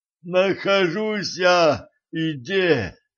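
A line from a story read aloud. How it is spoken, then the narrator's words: Moaning. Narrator (Russian): простонал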